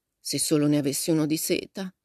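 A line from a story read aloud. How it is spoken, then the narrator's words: Sighed. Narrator (Italian): sospirò Meg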